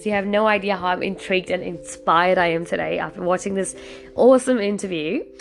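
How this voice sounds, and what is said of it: Excited voice. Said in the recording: “hear the excitement from my voice.”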